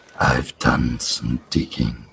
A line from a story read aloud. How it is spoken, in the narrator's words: whisper